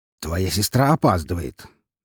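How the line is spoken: Openly displeased grumble. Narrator (Russian): Даже не стараясь скрыть недовольство в голосе, проворчал Павел

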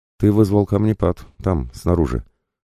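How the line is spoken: Calm. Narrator (Russian): спокойно прокомментировала мои действия Юнмэй

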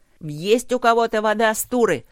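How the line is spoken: Yelled. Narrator (Russian): заорал Тротт

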